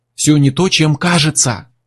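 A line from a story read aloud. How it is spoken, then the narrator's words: Shouted. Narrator (Russian): выкрикнул он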